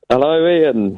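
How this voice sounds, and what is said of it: Shouting down the phone. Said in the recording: “I don't know why I'm shouting”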